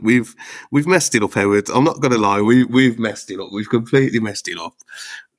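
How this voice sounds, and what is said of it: Strong regional accent. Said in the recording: “I think your accent might get us through the swear filter there as well.”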